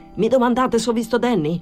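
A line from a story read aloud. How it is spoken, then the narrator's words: Muffled shout behind door. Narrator (Italian): Di dietro alla porta gridò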